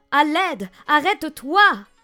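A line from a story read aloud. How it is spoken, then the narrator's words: Shouted. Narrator (French): cria-t-il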